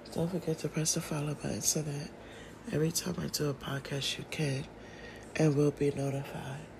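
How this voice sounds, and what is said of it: Sick voice that cuts in and out. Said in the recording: “pardon my voice. ... still battling with this flu ... My voice goes in and out.”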